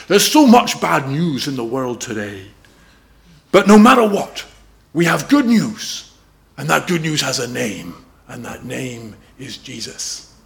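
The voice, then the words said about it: Imitated Welsh accent, not very good. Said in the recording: “a Welsh preacher who says this. My accent's not very good... I wish I was Welsh.”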